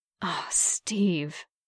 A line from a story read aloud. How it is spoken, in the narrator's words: Bucky breathed